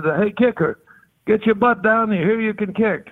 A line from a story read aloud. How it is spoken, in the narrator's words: He hollered at me and said